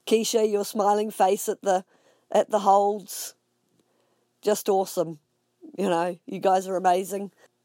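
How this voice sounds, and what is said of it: Croaky voice. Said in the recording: “My voice is a little croaky today. ... the sky is hazy, and my throat's not really loving it.”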